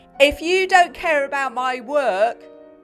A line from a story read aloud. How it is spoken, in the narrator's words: shouted feisty Janet